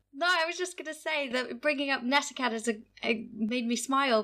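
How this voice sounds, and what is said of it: Canadian English accent. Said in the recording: “coming from Canada, which you can tell by my voice”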